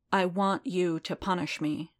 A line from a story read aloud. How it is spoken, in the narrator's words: Din said, slowly and clearly